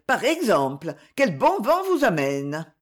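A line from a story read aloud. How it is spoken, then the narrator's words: Exclaiming. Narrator (French): s'écria-t-elle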